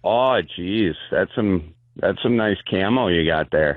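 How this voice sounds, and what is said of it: Gay guy with Wisconsin accent. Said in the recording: “do an impression of a gay guy ... A gay guy from Wisconsin. ... I love the gay guy from Wisconsin.”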